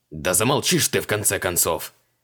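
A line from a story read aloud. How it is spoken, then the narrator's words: Furious spitting roar. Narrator (Russian): Взревел маг, брызгая на Хубаксе со слюной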